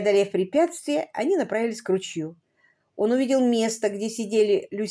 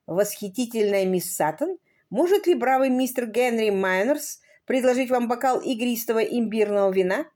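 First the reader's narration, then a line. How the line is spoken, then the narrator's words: Pompous tone. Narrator (Russian): его напыщенного тона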